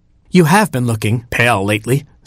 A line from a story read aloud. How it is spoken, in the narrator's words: said the king